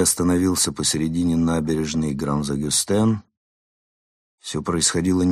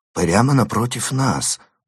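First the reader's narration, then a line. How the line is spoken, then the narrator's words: Muttering. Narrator (Russian): пробормотал он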